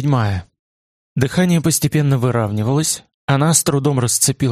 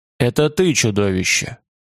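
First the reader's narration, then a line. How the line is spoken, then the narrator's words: Still hoarse voice. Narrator (Russian): ответил все еще хриплым голосом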